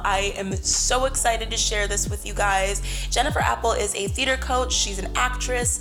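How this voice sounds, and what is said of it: Hoarse, fading voice. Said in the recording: “apologize for my voice. I don't know what has been going on with me, but I am losing my voice.”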